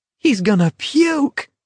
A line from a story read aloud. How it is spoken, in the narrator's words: someone cried in an ecstasy of delight